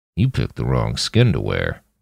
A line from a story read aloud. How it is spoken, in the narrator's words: Roland muttered